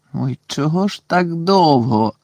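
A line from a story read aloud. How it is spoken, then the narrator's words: Groaning. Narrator (Ukrainian): простогнав Рен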